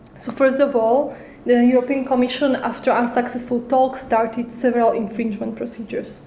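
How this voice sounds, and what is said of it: Hoarse, failing voice. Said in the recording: “My voice is completely out.”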